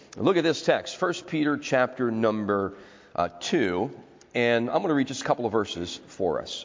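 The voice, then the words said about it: Sick, congested-sounding voice. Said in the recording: “Forgive my voice. I've been battling with a little bit of that upper respiratory stuff.”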